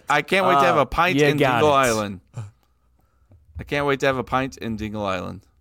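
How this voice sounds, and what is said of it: Put-on Irish accent. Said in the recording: “Give us your Ireland accent for saying that city. Say the city in the Ireland accent.”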